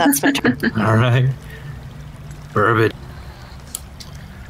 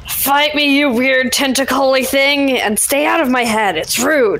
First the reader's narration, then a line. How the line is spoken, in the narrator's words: I'm going to yell